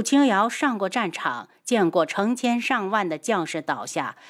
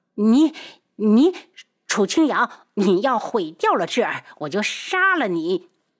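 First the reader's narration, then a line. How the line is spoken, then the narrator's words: Furious. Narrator (Chinese): 绵姨怒不可遏地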